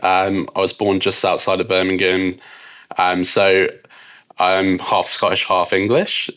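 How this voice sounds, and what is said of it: British accent. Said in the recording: “as you can probably tell from my accent, I'm from the UK.”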